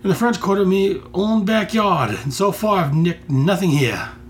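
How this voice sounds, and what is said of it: Poor put-on Australian accent. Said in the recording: “my crummy Australian accent”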